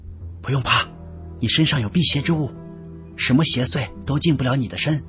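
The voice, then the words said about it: Quiet, hushed speaking. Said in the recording (Chinese): “小声的说”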